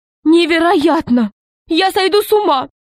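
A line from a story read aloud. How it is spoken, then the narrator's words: Exclaimed. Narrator (Russian): воскликнула Каролина Павловна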